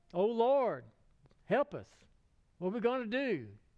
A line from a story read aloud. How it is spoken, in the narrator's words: cried out